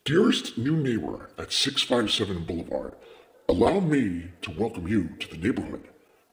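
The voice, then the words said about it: Performed creepy letter-writer character voice. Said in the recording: “put on my best watcher voice”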